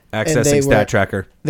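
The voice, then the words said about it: Mock robot voice. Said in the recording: “my robot voice? ... It was terrible. ... Close to your normal voice.”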